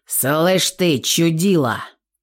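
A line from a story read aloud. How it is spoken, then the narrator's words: Nervous man growling. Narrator (Russian): Зарычал нервный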